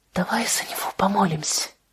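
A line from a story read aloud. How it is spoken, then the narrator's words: Whispered. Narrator (Russian): шепнула Мэри Руфь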